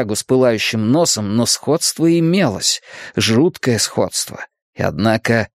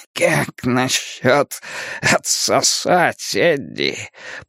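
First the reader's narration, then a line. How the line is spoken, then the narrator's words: Monster's grinning hoarse rasp. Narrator (Russian): прохрипело чудовище, ухмыляясь остатками рта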